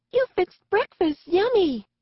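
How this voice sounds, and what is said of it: Childish baby voice. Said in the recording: “the baby voice”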